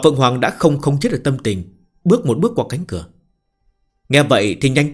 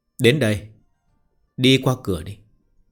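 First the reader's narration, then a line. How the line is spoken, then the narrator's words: Smiling. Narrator (Vietnamese): Nghi Húc Đạo mỉm cười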